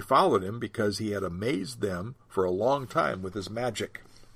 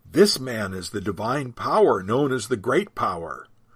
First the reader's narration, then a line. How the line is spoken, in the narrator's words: all the people, both high and low, gave him their attention and exclaimed